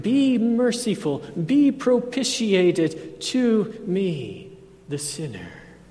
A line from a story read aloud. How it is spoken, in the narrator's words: pleaded